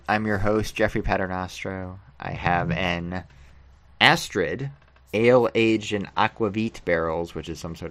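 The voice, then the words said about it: American accent. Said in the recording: “With an American accent”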